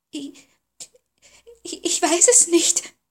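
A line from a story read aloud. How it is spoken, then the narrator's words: Stammering. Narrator (German): stammelte Sophie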